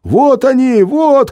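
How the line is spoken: Shouting gorilla. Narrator (Russian): кричал горилла

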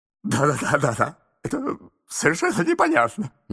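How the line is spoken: Muttering. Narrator (Russian): бормотал мистер Адамс

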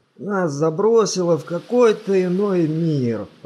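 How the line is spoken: Moan. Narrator (Russian): простонал главный философ

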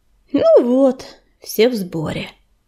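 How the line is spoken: Sighing. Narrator (Russian): вздохнул Ежевика

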